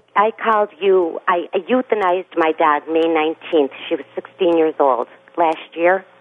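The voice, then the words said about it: Regional American accent. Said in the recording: “it's a regional accent thing.”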